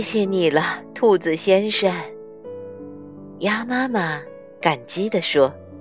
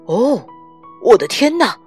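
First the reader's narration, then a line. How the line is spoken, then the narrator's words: Shouting. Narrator (Chinese): 他喊道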